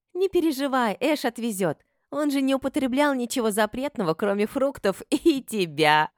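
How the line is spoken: Laughing friend. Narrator (Russian): рассмеялась подруга

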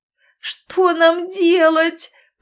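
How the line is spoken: Sobbing. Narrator (Russian): прорыдала Катя

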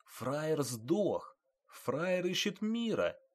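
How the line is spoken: Whisper in the ear. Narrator (Russian): шептал на ухо

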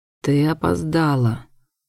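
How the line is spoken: Dry statement. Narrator (Russian): сухо констатировал Дэйвен

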